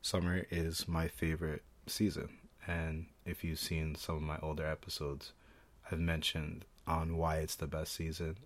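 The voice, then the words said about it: Rough voice from a cold. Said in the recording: “Sorry for my voice. It's been on and off dealing with like a cold.”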